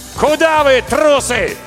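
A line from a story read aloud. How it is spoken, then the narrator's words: Shouted. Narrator (Russian): И крикнул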